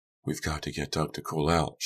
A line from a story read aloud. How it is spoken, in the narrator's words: Shannon whispered